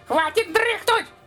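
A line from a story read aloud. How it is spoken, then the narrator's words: Cuckoo squeal. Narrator (Russian): визгнула кукуха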